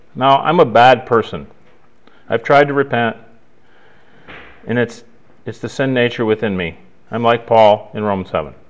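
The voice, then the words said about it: Very sarcastic tone. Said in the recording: “are you being sarcastic right now? ... Sarcastic, very sarcastic, yes, very.”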